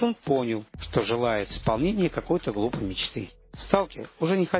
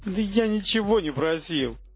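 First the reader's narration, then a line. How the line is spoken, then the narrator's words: Shout. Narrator (Russian): крикнул монолит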